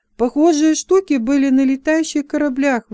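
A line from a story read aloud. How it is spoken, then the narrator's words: Excited exclamation. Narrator (Russian): возбужденно воскликнул он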